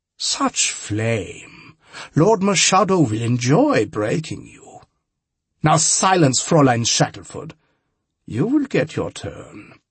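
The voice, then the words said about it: Precise German-accented villain voice. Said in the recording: “I hated that precise German accent.”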